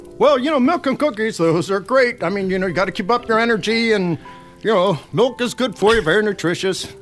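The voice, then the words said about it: Santa Claus character voice. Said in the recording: “Santa”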